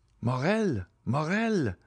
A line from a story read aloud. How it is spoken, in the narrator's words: cried my father